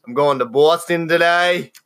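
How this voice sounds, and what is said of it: Attempted Boston accent, sounds Australian. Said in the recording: “trying to be Boston to Australian”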